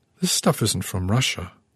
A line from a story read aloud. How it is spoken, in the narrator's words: I murmured, hearing my voice tremble